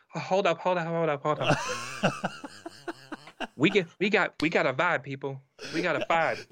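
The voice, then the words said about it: Imitates another person's voice. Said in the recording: “That's a great impersonation”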